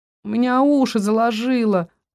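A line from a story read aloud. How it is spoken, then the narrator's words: Moaning. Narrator (Russian): простонал рыжий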